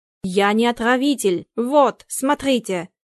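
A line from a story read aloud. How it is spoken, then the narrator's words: Strained shout, crunching. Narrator (Russian): прокричал балетмейстер, надсадно хрустя сахаром на зубах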